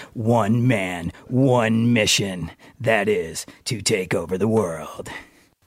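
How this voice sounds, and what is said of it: Deep announcer DJ voice. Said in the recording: “The downtown DJ voice.”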